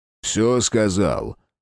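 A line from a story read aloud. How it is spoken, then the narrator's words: Soldier's rough question. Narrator (Russian): грубо спросил вояка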